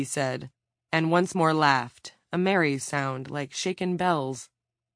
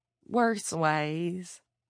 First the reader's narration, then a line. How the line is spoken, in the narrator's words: Garth said, but his voice was faint